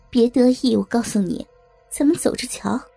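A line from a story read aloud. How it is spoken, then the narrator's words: Mocking. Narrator (Chinese): 王玉玲嘲笑的对万影帝说着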